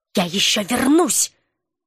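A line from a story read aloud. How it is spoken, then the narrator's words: Spiteful whisper. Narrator (Russian): злобно прошептал ученый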